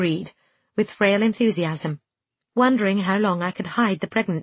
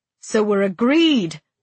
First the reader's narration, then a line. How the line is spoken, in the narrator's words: he exclaimed with pleasure